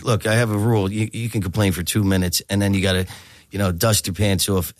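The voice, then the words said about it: South Philadelphia accent. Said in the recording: “I do come from South Philadelphia ... Tell that from your accent.”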